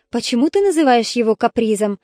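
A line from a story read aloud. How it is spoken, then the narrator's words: Plain question. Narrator (Russian): спросила она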